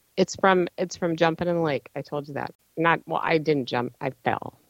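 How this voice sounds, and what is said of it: Slightly damaged, under-the-weather voice. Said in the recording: “my voice is bad ... under the weather ... it's mostly normal now, but it does get a little, whatever. It's still not gone away”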